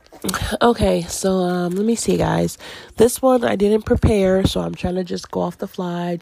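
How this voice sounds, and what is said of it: Stuffy, deep, raspy voice. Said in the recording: “my nose is getting stuffy ever since I pushed record. Now I feel like my voice is getting a little deep and raspy”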